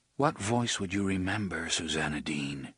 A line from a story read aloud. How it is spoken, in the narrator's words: Roland asked in a low, musing voice